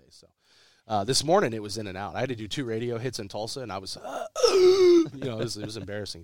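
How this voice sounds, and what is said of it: Hoarse, raspy sick voice. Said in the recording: “I was sick. So I was doped up all weekend... I've got my Phoebe voice going on... The Phoebe sexy voice”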